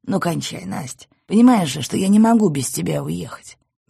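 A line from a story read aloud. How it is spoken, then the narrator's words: Tired request. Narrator (Russian): устало попросил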